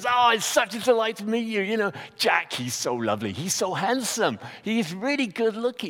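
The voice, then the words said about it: Poor imitation American accent. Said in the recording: “a really bad impression of somebody who's American”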